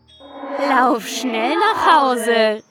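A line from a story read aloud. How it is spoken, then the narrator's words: Calling out. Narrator (German): rief es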